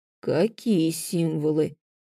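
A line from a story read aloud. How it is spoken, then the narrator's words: Confused, muddled asking. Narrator (Russian): замороченным голосом уточнил Дарил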